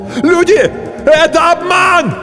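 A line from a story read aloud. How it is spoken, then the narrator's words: Desperate shout. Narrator (Russian): закричал кто-то отчаянно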